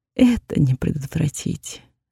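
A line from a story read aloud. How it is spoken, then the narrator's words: Sighing. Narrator (Russian): вздохнула я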